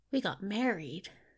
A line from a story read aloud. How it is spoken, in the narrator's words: Crowley blurted out